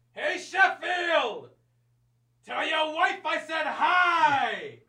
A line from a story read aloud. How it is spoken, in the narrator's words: I yell